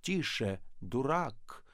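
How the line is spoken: Menacing. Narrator (Russian): сказал Остап грозно

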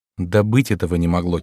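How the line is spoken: Quiet hostess. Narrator (Russian): тихо проговорила хозяйка

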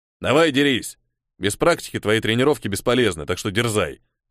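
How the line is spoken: Wry snort. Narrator (Russian): хмыкнул Крим

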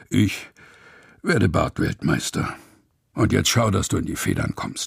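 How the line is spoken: Grumbling grandfather. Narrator (German): Opa brummt nur

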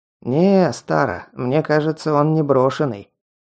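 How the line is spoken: Snide remark. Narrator (Russian): ехидно заметил циклоп

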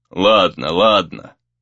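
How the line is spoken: Flustered elder grumbling. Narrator (Russian): проворчал староста, сбитый с толку напором Рея

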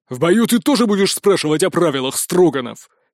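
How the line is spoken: Angry bark. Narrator (Russian): сердито рявкнул он

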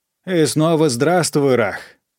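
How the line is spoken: Shout over noise. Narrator (Russian): крикнул он сквозь шум

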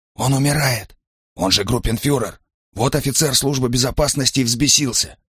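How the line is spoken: Barely audible reply. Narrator (Russian): чуть слышно ответил он

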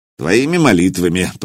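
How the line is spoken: Grumbled. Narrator (Russian): проворчал Илья

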